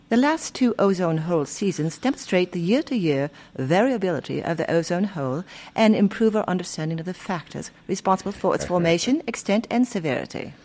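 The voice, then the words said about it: Mock British accent. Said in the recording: “Why are you using a mock accent there to read that? ... when you do have a British accent”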